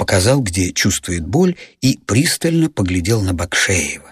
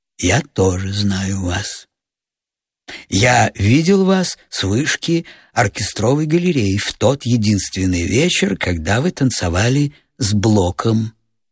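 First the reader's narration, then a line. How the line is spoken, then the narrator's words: Sighing. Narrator (Russian): Кирснер вздохнул и сказал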